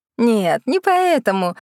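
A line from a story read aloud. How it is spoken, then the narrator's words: Laughing. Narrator (Russian): рассмеялась Мэйв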